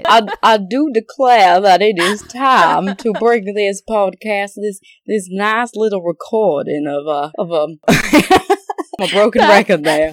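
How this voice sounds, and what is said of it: Exaggerated, badly done Southern accent. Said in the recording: “That accent is so bad. ... I have different dialects of Southern ... that's like Gone with the Wind. That was that accent.”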